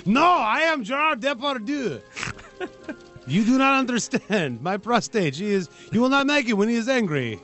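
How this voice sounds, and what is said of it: Bad French-accented Gerard Depardieu impression. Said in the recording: “The worst French accent.”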